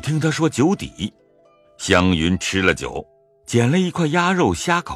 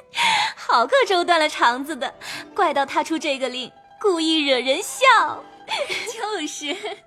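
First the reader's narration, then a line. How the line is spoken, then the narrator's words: Laughing. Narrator (Chinese): 说的众人都笑了，说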